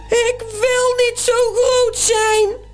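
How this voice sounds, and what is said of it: Deafening roaring giant pig voice. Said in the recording (Dutch): “Brult het reuzenzwijn met een oorverdovende stem.”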